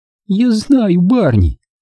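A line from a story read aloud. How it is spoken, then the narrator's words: Spiteful giggle. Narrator (Russian): хихикнула со злостью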